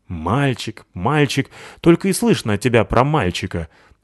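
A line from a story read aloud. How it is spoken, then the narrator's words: Grumbling. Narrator (Russian): проворчал Рыжопиус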